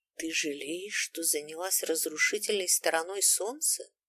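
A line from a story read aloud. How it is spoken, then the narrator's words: Quiet question. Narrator (Russian): спросил я тихо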